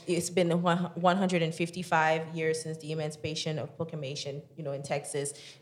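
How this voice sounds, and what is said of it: Strong accent. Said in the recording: “my accent is extremely big, but I said big, but yeah, it's strong”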